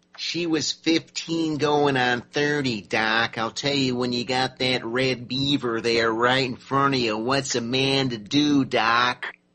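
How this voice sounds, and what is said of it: Imitates another person's voice. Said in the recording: “That's my impression ... Jack Nicholson there ... in Cuckoo's Nest”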